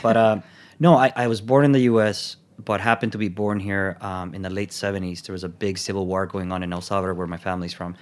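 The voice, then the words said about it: Noticeable foreign accent. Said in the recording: “you'll notice a weird accent ... I haven't gotten rid of the accent”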